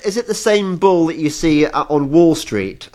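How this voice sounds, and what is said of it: Black Country English accent. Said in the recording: “I'm probably doing my black country accent”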